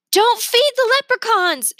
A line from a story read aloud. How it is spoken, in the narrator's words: she yelled